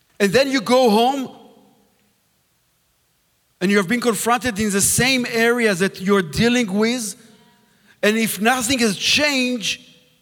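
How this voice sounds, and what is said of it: Israeli accent. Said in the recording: “thank you for bringing a guest from Israel. I'm glad I was able to understand his accent, so that's a miracle for itself.”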